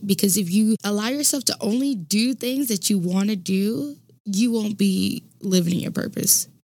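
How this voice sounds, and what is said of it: Slightly stuffy, congested voice. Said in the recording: “my allergies be acting up ... if I sound a little stuffy”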